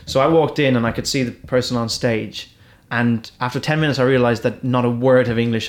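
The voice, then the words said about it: Irish accent. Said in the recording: “I've got an Irish accent ... the Irishness tone it down just a little bit”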